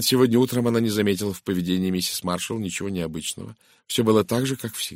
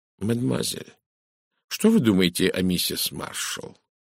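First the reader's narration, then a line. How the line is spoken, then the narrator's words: Quiet question. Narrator (Russian): негромко спросил Эркюль Пуаро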